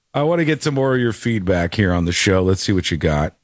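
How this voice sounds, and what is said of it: Voice worn from a cold. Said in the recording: “Give my voice a break here as I'm fighting off ... the common cold”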